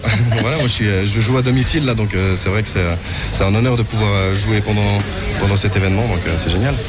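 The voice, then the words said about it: Swiss French Vaud accent. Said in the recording (French): “accent vaudois”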